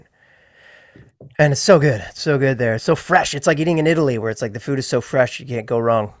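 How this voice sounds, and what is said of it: Usual voice. Nothing is said of it.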